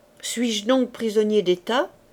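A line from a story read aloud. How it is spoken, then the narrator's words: Plain. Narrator (French): dit le comte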